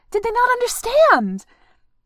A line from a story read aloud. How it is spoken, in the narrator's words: She laughed, a bit hysterically